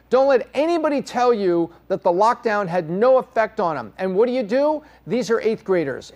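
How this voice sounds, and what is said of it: Angry, amped-up delivery. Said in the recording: “I sound a little angry, a little amped up at this moment, it's because I flipping am”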